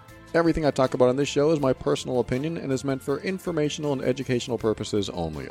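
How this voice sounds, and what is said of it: Exaggerated radio announcer voice. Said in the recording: “I just went total radio voice there ... You just put on that fake radio voice ... amplifying my voice for the air”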